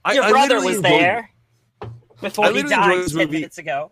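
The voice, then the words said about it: Put-on affected character accent. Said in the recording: “Is that your Catherine Hepburn impression? ... It was my Sansa Stark after she's gone to the South.”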